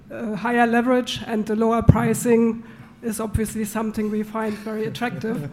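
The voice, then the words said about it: Rough, strained voice. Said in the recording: “excuse me ... Sorry, my voice is bad.”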